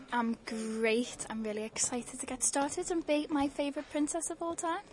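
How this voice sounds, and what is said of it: Strong Liverpool accent. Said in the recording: “I'm all the way from Liverpool ... The accent's quite strong”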